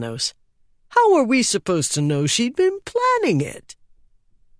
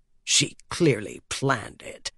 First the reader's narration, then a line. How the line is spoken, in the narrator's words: grumbled Strauss